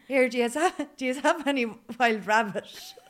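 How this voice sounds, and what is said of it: Put-on Mullingar Irish accent. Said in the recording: “in my take is Mullingar accent.”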